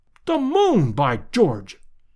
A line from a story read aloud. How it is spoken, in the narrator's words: cried Lord John